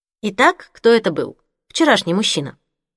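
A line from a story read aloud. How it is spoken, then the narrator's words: Indifferent questioning tone. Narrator (Russian): Безразличным тоном поинтересовалась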